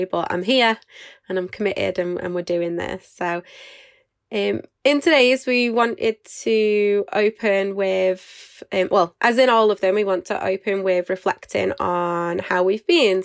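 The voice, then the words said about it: Nasal, congested voice. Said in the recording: “a little bit poorly, so I sound a bit nasally”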